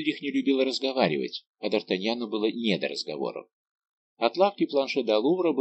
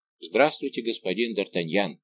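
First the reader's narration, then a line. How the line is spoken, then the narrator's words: Plain. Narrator (Russian): сказал швейцарец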